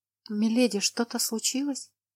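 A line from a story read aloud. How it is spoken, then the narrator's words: Quiet question. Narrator (Russian): тихо спросила Лана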